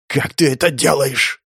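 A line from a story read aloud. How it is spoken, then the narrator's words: Hoarse rasp. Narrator (Russian): прохрипел Яр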